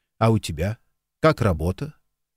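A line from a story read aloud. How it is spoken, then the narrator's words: Forced calm voice. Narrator (Russian): Джимми изо всех сил старался говорить спокойно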